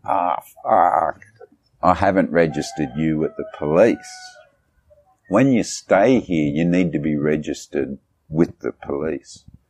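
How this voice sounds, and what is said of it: Imitated woman with Aussie accent. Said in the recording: “this is how she talks, she's got an Aussie accent”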